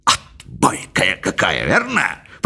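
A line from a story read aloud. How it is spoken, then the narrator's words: Whisper. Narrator (Russian): прошептал мистер Джонас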